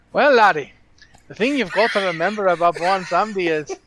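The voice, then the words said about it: Bad put-on Scottish accent. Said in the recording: “It's possibly the worst Scottish accent you will ever hear.”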